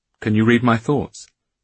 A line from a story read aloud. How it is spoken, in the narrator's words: he asked